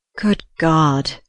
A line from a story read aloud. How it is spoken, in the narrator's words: he groaned